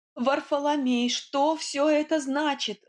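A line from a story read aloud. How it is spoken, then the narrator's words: Shriek. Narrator (Russian): взвизгнула я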